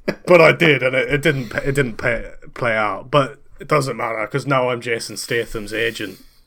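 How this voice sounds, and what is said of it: Speaks in a Scottish accent. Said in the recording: “Scottish one you're doing ... now”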